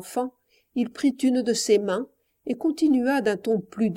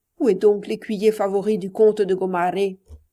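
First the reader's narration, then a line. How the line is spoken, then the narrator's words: Pages and jesters mocking. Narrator (French): ses pages et ses bouffons diraient d'un ton moqueur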